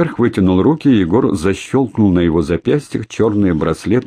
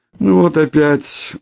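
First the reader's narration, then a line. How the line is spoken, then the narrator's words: Dejected. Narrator (Russian): уныло проговорил Шеринг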